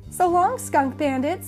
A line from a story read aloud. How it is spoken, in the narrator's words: laughed Blaze